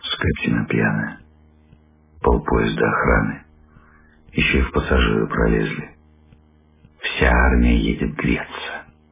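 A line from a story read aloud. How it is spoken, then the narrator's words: Quiet, woman's voice. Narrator (Russian): Жена тихо сказала вслед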